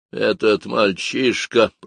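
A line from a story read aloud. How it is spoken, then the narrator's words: Clipped, through teeth. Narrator (Russian): процедила она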